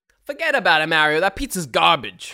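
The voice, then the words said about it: Put-on New York accent. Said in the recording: “do the whole New York accent?”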